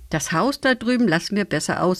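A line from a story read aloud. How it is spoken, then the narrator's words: Plain. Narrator (German): sagte Lisa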